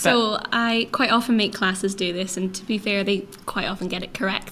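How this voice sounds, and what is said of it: Scottish accent. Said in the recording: “Some people might be able to guess where you're from your lovely accent ... I am from Scotland. I am from the northeast of Scotland”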